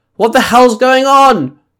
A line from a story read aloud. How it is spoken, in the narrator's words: Penny called out